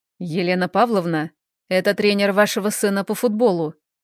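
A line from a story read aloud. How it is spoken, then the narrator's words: Cold. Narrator (Russian): говорит он холодно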